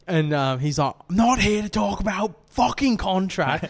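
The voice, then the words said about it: Good imitation of another person's accent. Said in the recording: “That's a good accent though.”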